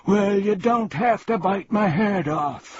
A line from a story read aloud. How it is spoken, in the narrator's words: screamed the terrified Earl